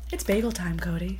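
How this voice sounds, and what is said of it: Morning public-radio host voice. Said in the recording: “it's your morning radio voice right now... my NPR”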